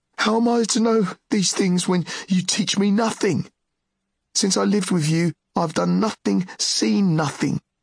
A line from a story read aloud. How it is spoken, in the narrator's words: Driven by his shame, Ged cried